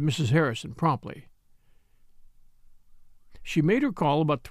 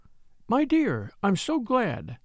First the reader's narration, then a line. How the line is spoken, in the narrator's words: she said warmly